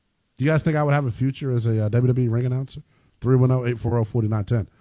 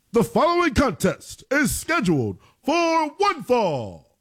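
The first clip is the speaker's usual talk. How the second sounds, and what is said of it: Wrestling ring announcer voice impression. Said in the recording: “That was kind of like Howard Finkel-y. That was a bad Tony Chimmel impersonation.”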